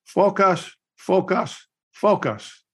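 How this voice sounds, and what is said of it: Imitated Korean accent. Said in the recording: “in his Korean accent”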